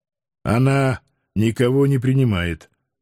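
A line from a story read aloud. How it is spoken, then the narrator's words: Grumbled mutter. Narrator (Russian): буркнул я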